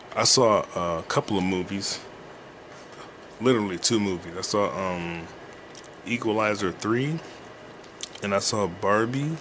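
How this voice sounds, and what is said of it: Deeper than usual voice. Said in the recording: “My voice is deeper because I just woke up.”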